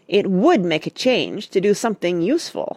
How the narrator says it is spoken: snapped Joe

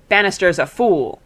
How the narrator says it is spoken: snapped Mr

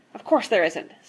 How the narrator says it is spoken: snapped Mr

